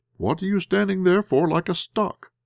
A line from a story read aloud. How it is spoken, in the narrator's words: I exclaimed angrily